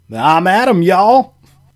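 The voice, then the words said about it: Put-on Kentucky accent. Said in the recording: “your Kentucky accent is actually a hurtful stereotype”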